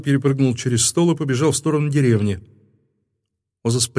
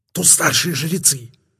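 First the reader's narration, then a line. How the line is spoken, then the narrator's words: Hissed. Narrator (Russian): прошипел Озас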